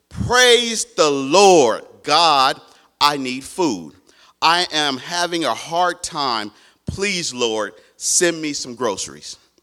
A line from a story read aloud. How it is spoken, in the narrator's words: She stood on her porch and shouted